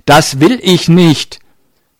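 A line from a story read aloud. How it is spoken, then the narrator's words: Far too loud. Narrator (German): wiederholte er leider viel zu laut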